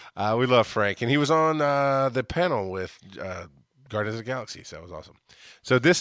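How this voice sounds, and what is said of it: Usual voice. Nothing is said of it.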